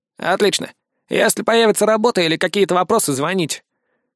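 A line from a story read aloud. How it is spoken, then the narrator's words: Snorting. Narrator (Russian): хмыкнул Стрелок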